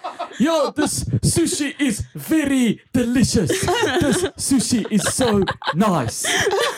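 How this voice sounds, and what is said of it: Exaggerated thick Afrikaans accent. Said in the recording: “with Afrikaans accent ... if their accent, Afrikaans accent, is thicker than mine ... we just like sound like apartheid leaders”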